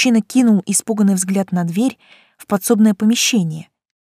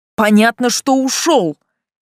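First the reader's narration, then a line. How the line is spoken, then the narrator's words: Barked. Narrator (Russian): рявкнул Селей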